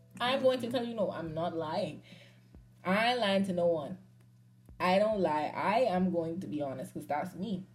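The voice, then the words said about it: Bahamian accent. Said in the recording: “someone pick up on my accent, they ask me where I'm from ... I'm Bahamian”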